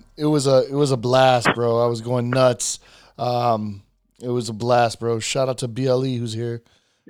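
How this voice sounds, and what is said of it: Hoarse, strained voice. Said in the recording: “My voice is my voice is wrecked. I was laughing, I was yelling, I was hitting tables”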